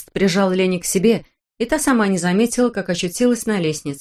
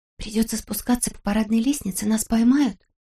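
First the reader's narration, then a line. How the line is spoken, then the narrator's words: Whispered. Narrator (Russian): прошептала Лени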